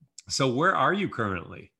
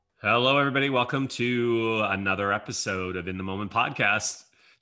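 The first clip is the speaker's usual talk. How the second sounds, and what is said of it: Put-on podcast host voice. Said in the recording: “This is my podcast voice.”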